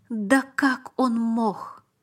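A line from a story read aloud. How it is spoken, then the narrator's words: Strained, forced out. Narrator (Russian): выдавил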